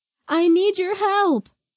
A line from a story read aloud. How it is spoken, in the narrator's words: Mary called out